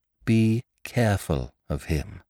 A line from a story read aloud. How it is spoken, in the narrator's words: said Polly slowly